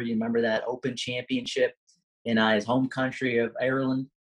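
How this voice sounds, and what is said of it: Put-on Irish accent. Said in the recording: “Great attempt of an accent there.”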